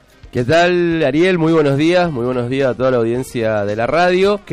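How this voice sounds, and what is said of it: Manly radio announcer voice. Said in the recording (Spanish): “Qué voz que tiene ... Voz de locutor. ... Voz de macho”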